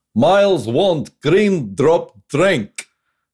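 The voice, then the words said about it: Put-on character accent, broken English. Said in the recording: “Can I do it in a Herkimer Homolka accent?”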